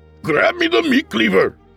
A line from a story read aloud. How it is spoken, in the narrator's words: Abu barked